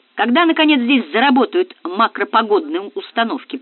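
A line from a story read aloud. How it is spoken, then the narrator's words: Grumbled behind respirator. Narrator (Russian): проворчал Мансуров, надвигая на лицо щиток респиратора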